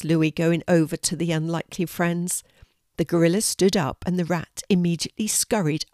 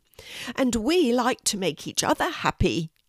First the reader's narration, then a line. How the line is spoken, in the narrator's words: squeaked the rat, just as joyfully